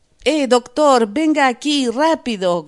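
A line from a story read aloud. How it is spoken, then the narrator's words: Man shouting. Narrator (Spanish): gritó el hombre de la pistola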